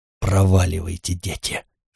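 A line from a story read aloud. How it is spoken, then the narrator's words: Hissing. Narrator (Russian): шипел он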